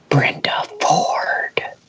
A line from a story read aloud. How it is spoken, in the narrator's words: out of the darkness beside me, the whisper came